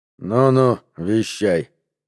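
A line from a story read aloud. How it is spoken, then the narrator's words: Grumbling. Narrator (Russian): буркнул Гард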